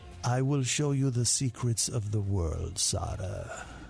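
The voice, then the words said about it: Antonio Banderas impression. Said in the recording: “you got the Antonio and Banderas ... That's really good”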